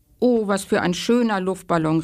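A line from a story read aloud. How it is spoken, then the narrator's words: Call. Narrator (German): rief Moritz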